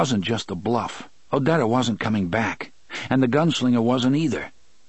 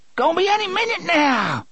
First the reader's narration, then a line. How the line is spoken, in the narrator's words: Dedda screamed